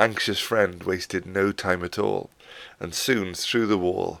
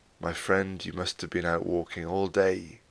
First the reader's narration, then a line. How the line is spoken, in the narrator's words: said gently